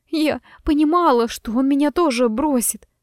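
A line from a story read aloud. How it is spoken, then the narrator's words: Trembling voice. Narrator (Russian): дрожащим голосом произнесла Айрис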